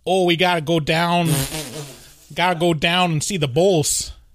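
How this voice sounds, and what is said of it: Put-on Chicago accent. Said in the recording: “I'm saying that's a Chicago accent... No, that's Chris Farley's Chicago accent.”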